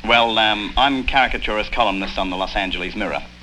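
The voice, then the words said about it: Australian accent, sounds Cockney. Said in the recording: “That's an unusual Cockney accent you have ... Australians speak this way ... You sound like a Cockney to me”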